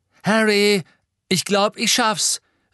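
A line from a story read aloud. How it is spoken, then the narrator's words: Called out. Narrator (German): rief Seamus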